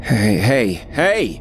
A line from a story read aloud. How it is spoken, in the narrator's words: I shouted